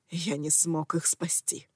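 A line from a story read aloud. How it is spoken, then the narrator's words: Whisper. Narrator (Russian): прошептал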